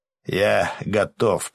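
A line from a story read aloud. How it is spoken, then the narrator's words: Growled. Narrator (Russian): прорычал Гарм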